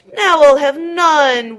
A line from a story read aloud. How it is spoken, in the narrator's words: wailed the hungry piggy at the top of his voice